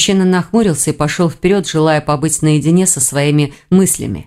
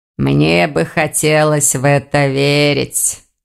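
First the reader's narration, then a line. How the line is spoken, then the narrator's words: Grumbling. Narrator (Russian): проворчал проректор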